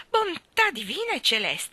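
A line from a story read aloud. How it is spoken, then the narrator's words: Exclaiming. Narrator (Italian): esclamò Mary Poppins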